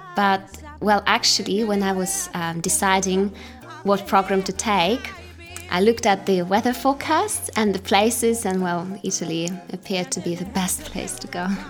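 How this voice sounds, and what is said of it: British accent. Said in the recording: “You have a very British accent. You really got that one pretty well.”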